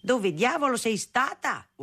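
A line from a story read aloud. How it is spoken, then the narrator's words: Father yelling. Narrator (Italian): urlava mio padre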